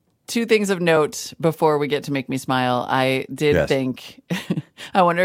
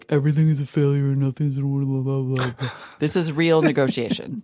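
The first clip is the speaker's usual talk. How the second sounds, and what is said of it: Mocking impression of a media pundit. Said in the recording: “Mock me like that ... I was mocking myself ... Was that your Kai impression? ... That was my all the media impression.”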